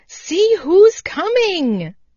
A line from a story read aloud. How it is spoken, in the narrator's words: cried Happy Jack